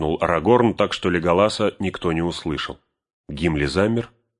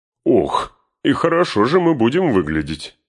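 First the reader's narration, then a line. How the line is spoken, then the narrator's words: Laughing exclamation. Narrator (Russian): Внезапно расхохотавшись, воскликнул Гимли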